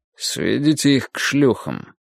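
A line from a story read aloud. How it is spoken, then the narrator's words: Grumbled. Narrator (Russian): буркнул он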